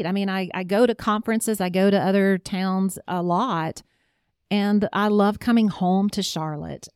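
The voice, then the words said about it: Southern American accent. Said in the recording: “English is not your first language, but you now have a bona fide Southern accent.”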